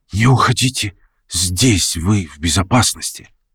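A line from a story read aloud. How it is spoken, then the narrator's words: Barely audible whisper. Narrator (Russian): чуть слышно шепнула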